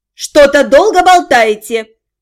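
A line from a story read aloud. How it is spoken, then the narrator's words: Displeased shout from another room. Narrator (Russian): Недовольно крикнула из спальни Зальфия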